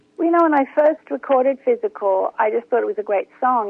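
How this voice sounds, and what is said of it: Australian accent. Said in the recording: “you're an Aussie. ... I sound like one, don't I? ... you do. You do.”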